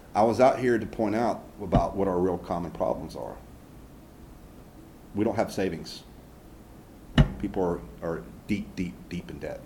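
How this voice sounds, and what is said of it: Southern US accent. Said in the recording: “dude with a southern accent”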